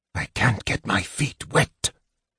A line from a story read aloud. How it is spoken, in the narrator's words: he whispered hoarsely